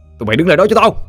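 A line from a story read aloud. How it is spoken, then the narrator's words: Shouting. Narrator (Vietnamese): Anh quát lên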